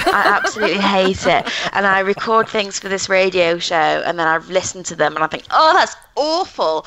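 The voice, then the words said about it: North of England accent. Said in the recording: “I love the North of England accent.”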